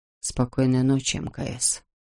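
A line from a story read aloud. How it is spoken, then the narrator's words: Quiet. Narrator (Russian): тихо добавил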